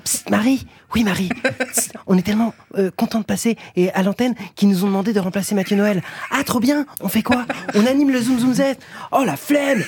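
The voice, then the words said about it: Imitates another person's voice. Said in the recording (French): “c'est compliqué cette imitation ... Je fais des droits d'auteur en m'imitant”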